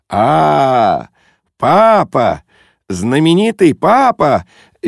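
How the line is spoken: Cheerful shout. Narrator (Russian): весело закричал он

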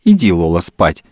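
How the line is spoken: Snide, mocking tone. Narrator (Russian): ехидно говорила

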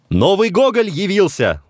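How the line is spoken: Shouted. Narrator (Russian): закричал Некрасов

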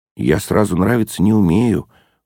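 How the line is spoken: Gloomy sigh. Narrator (Russian): уныло вздыхал Ежевикин

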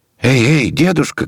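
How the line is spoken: Many voices shouting. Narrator (Russian): кричали со всех сторон

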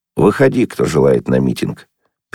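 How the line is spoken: Calm bass voice. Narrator (Russian): чей-то бас спокойно сказал

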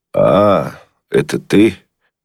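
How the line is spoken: Cold, displeased. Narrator (Russian): холодно и недовольно встретил меня Бенедиктов

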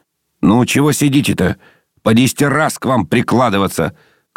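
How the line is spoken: Passerby shouting. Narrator (Russian): крикнул проходивший по улице человек

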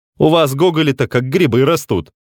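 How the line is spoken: Stern remark. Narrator (Russian): строго заметил ему Белинский

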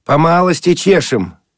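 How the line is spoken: Cheerful shout. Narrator (Russian): закричал он весело

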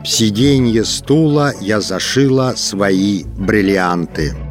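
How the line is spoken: Wooden, indifferent voice. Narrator (Russian): Клавдия Ивановна деревянным равнодушным голосом сказала

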